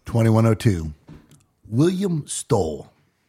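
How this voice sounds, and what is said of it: Put-on British accent. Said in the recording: “Is that your British accent again?”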